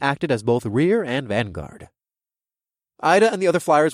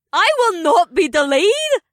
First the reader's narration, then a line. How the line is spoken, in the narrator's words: exclaimed